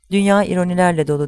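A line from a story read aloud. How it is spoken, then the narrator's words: Loud voice. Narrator (Turkish): dedi yüksek sesle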